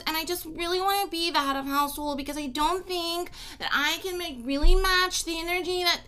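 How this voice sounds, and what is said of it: Nasal imitation of another person. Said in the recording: “your imitation of Nicole ... she talks like this and everything is really in her nose”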